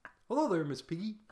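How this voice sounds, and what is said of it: Kermit the Frog character voice. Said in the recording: “What's your one impersonation? ... Kermit ... the Frog? ... That's pretty good.”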